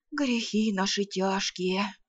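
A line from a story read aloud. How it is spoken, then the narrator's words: Vague sigh, peasant man. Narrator (Russian): неопределенно вздохнул мужик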